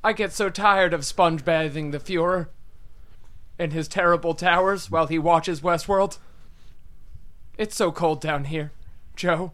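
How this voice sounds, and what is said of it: Yelly Ezra Klein impression. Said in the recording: “That was a great Ezra Klein impression ... He sounds different when he's cold ... I'm surprised that Ezra Klein was that yelly in this future.”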